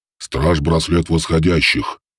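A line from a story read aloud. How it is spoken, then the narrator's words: Sinister, through gritted teeth. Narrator (Russian): зловеще процедил голос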